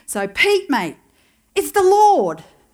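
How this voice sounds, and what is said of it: Put-on Australian accent. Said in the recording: “I imagine this in an Aussie accent.”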